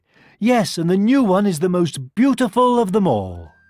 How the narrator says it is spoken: one little girl cried

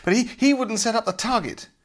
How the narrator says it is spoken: panted Tom angrily

